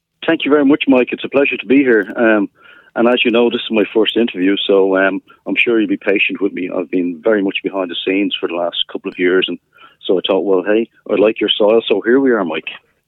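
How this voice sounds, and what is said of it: Irish accent. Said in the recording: “is from Ireland... So there is a bit of an accent.”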